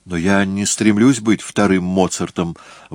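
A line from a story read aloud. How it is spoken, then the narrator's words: Exclamation. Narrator (Russian): воскликнул Джессон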